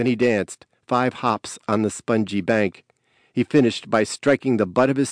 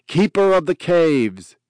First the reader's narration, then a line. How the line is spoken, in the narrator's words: shouted across the river